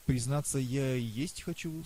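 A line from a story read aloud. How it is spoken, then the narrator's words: Plain. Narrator (Russian): сказал я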